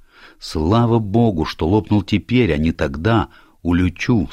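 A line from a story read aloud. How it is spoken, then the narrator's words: Plain. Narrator (Russian): сказал я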